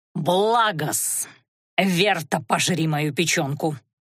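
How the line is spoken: Growling. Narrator (Russian): прорычал Димитрион

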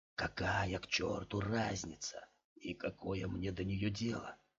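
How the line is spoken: Deep sigh. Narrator (Russian): глубоко вздохнул

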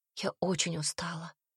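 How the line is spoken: Tired whisper. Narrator (Russian): прошептала она Себастину

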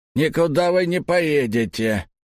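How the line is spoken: Rude. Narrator (Russian): грубо сказал он

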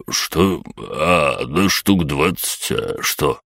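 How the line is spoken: Muttering. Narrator (Russian): пробормотал он

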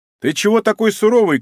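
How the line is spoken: Shouting. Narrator (Russian): крикнул Данила

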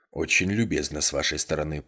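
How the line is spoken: Muttered. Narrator (Russian): пробормотал он

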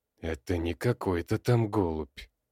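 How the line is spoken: Wheezy hoarse. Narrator (Russian): просипел Петрович

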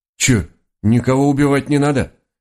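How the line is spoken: Disappointed sigh, raccoons. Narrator (Russian): разочарованно вздохнула пара енотов

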